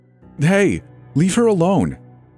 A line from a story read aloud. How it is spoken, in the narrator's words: shouted from across the parking lot